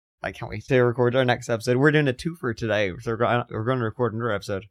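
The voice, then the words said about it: Strained, worn-out voice. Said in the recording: “My voice is fucked.”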